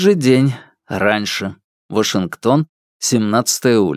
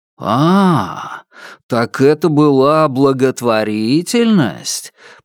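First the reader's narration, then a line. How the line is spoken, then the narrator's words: Drawn-out sarcastic tone. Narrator (Russian): протянул язвительно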